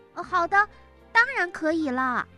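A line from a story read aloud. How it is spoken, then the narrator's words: Loud, beaming. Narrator (Chinese): 山姆露出了灿烂无比的笑容，大声地说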